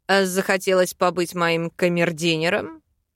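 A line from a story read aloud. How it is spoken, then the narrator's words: Snorting. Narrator (Russian): Хмыкнул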